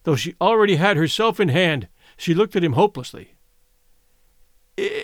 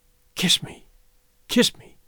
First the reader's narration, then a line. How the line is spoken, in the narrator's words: she whispered, her face lighting